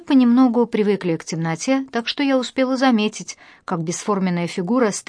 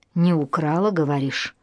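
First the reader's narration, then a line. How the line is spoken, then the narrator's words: Hissing stranger's voice. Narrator (Russian): прошипел чужой голос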